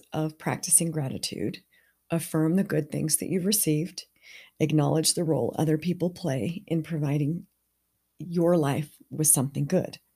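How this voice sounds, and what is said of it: Strained, hoarse voice. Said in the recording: “losing my voice, I haven't felt tip-top for the last few days”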